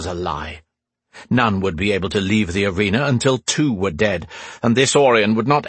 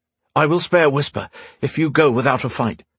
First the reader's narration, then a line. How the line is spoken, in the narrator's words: From across the way, Gwendolyn called out